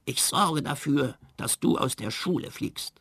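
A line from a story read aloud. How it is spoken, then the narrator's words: Hissing. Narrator (German): zischte er zu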